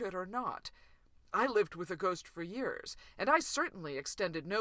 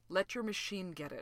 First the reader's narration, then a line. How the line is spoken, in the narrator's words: Fraser said quietly